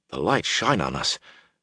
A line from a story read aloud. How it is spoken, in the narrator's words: Huron murmured nervously